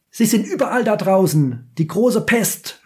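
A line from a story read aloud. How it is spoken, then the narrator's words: Frenchman shouting. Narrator (German): schreit der Franzose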